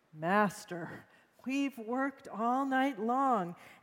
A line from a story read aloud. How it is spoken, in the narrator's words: Simon groaned